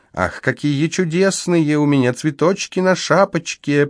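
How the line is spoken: Girlish voice, singsong. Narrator (Russian): приговаривал он девчоночьим голосом

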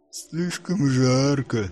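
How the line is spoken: Lazy reply, giant. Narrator (Russian): лениво отозвался великан

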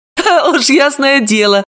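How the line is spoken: Touched laughter. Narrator (Russian): рассмеялась Далила, растроганно

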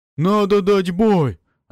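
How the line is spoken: Joyful roar. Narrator (Russian): Радостно взревел Орн

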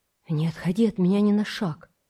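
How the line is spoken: Whispered warning. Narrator (Russian): шепотом предупредил он

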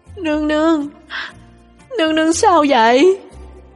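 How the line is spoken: Choked with sobs. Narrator (Vietnamese): Lục Ly nghẹn ngào

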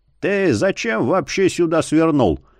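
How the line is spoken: Grumbling. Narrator (Russian): проворчал Марий

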